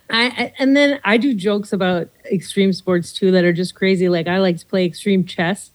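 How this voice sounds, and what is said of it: Minnesota accent. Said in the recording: “did you grow up in Minnesota? You have the accent.”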